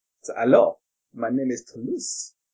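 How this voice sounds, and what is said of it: Character voice with French-sounding accent. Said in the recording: “He's French ... This accent just makes me seem sophisticated.”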